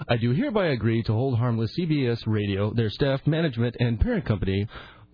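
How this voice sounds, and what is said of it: Polished radio announcer voice. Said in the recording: “He has a good radio voice.”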